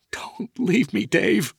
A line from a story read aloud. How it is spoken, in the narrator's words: Felicia sobbed